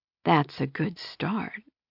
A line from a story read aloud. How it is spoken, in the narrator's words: she whispered